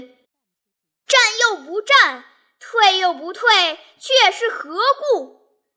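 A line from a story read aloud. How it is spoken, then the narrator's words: Shouted. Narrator (Chinese): 喊声未绝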